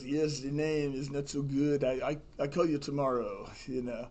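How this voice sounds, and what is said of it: Strong French accent. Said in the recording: “he's a French guy originally from Morocco. And so he has a pretty strong accent.”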